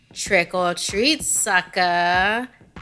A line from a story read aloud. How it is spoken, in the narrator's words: he taunted